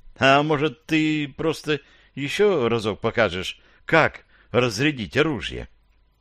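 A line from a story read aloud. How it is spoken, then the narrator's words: Timid, panicky question. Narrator (Russian): Робко поинтересовался я, перенимая настроение поручика и начиная паниковать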